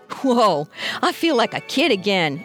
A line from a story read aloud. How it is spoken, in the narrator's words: exclaimed Red